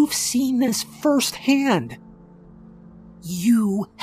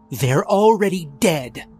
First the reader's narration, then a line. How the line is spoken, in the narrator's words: Meehan snapped